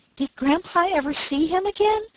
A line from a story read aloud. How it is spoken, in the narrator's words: asked Daisy eagerly